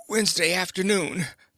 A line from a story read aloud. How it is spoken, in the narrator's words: the fat man gasped